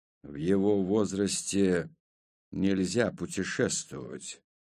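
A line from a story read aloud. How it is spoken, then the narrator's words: Quiet. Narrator (Russian): негромко проговорил Авром Бер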